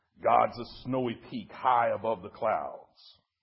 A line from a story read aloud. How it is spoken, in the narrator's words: Gentle as the mountain that rumbled